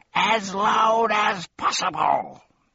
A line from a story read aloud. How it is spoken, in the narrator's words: bellowed the doctor